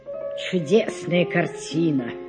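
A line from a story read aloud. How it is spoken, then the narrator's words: Spoken with respectful sigh. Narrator (Russian): проговорил Андрей Андреевич и из уважения вздохнул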